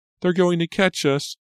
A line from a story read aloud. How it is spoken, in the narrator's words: Pam shrieked breathlessly